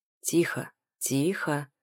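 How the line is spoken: Hoarse rasp. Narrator (Russian): хрипит морок

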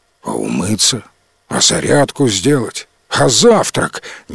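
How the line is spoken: Grumbling dragon, displeased. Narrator (Russian): недовольно заворчал дракон

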